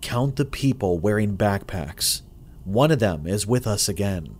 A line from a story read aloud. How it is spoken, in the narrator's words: whispered to me